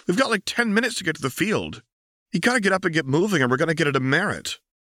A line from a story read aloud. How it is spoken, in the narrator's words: Harry yelped